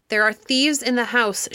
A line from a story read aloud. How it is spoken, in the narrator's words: she shouted at the top of her voice